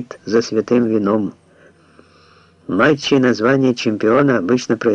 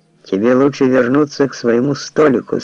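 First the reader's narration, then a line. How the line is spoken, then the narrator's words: Calm but firm. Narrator (Russian): сказал я спокойно, но твердо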